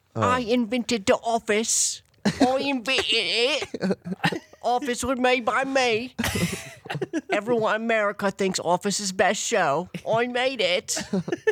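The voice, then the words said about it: Imitates another person's voice. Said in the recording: “my Ricky Gervais impression ... That's what he's like.”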